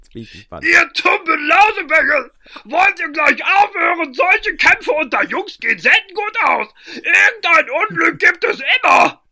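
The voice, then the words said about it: Hoarse, blaring trumpet-like character voice. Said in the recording (German): “mit einer Stimme, die wie eine erkältete Trompete klang”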